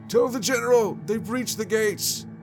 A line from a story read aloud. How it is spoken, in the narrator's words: you hear somebody yell